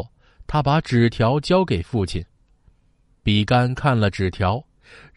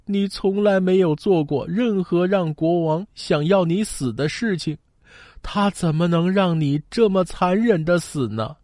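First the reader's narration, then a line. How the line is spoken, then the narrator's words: Crying. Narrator (Chinese): 他的儿子哭了，他说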